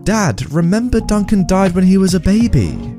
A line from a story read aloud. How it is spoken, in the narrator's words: they sadly had to tell him